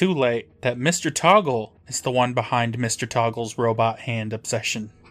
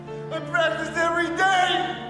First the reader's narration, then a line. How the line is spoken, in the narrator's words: Toggle shouts back